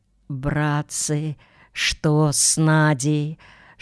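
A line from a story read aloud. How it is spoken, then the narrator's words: Whispered question, then coughing. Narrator (Russian): шепотом спросил дядя Федя и закашлялся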